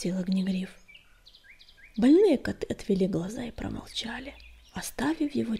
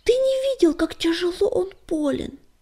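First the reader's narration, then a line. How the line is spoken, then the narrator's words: Exclaimed. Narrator (Russian): воскликнул Белогрудый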